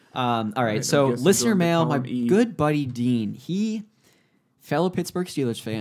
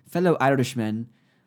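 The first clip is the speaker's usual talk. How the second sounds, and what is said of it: Bad put-on Irish accent. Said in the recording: “That's a terrible Irish accent. ... That's pretty bad.”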